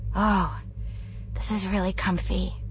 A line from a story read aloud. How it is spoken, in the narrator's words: Rose sighed